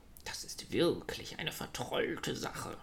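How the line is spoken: Grumbling. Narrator (German): brummelte

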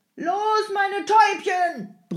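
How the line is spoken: Coachman roaring. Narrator (German): brüllte der Jemschik

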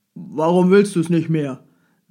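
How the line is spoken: Loud. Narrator (German): setzte laut hinzu

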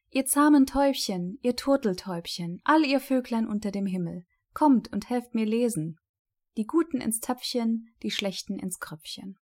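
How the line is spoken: Called out. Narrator (German): rief

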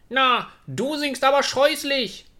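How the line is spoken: Calling out. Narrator (German): rief dem Schwan jemand zu

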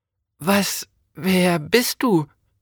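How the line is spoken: Stammer. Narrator (German): stammelte Jonas

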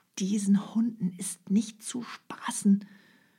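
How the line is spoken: Hunter whispering. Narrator (German): flüsterte der Jäger

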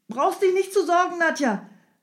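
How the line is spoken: Calling out. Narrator (German): rief Strogoff

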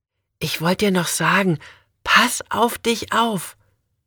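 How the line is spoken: Almost whispering. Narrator (German): sagt Marie fast flüsternd

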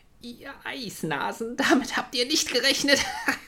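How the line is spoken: Group calling out. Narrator (German): riefen sie den verdutzten Wintertrollen zu

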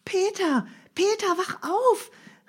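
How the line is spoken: Calling out. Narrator (German): rief Heidi

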